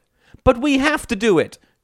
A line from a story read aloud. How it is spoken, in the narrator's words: cried Terry